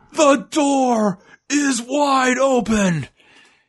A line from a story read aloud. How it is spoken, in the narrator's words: he yells for a fight